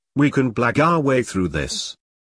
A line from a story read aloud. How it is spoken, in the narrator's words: Timothy said calmly